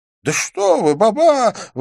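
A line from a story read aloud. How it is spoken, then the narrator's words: Deliberately loud exclamation. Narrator (Russian): воскликнул он, нарочито поднимая голос, чтобы услыхали торговцы по соседству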